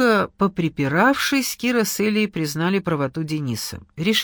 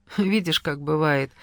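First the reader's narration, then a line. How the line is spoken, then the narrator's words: Sad smile. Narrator (Russian): грустно улыбнулась Эля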